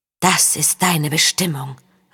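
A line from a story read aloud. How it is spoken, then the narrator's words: Inner spirit murmuring. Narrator (German): raunte der Lügengeist in ihr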